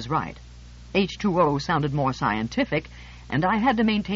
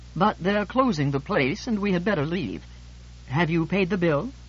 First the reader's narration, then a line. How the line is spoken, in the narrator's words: George let a large, vinous sigh bubble forth from the depths of what he considers his soul, and said